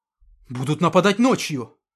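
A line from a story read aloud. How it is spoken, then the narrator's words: Exclaimed. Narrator (Russian): воскликнул Сурков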